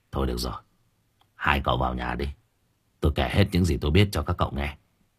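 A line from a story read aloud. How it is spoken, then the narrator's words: Soft sigh. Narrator (Vietnamese): Hoàn khẽ thở dài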